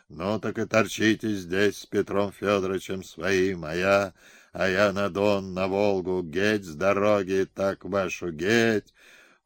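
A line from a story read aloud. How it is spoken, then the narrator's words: Strangled hoarse rasp. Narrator (Russian): Он скрежетал зубами и захрипел, будто его сгребли за глотку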